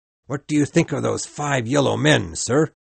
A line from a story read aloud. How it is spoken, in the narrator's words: he yelled out